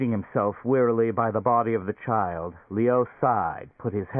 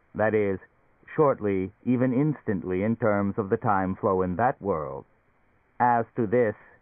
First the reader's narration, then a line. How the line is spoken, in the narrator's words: it chuckled